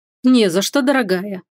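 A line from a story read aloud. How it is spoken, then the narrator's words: Smirking reply. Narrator (Russian): хмыкнул в ответ супруг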